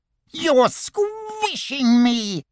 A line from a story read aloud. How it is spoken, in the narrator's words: squeaked Piglet